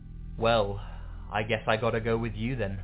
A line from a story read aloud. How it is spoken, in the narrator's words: she sighed and said